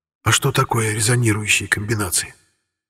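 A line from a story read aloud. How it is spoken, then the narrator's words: Whispered question. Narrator (Russian): Шепотом поинтересовался Арамис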